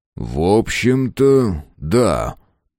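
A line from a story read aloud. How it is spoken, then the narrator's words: Slow speech. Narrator (Russian): медленно проговорил Фрейзер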